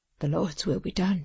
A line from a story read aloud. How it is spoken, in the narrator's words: said Tom, sighing heavily